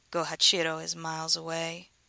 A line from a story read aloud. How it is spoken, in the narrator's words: she murmured